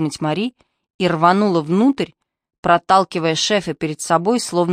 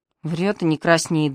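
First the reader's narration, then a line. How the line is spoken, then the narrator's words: Gruff grumble. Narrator (Russian): буркнул инструктор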